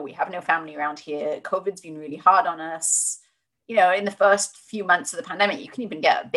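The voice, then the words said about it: Non-American accent. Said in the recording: “you can hear from my accent I'm, I'm not American”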